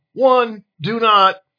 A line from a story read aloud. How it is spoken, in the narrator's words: exclaimed Mystica